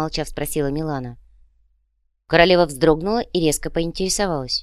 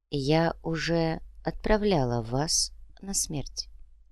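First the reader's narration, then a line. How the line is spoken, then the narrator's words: Quiet. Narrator (Russian): тихо сказала Всеслава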